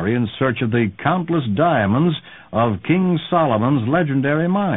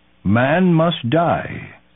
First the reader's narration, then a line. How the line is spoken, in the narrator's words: intoned their native guide, Umbopa, enigmatically